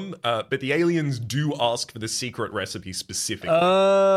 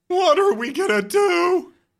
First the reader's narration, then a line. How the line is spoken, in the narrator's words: Randy moans